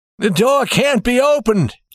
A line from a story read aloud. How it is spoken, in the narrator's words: he cried